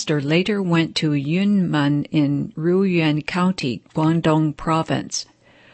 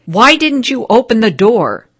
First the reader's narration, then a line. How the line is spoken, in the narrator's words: Threatening the master, they shouted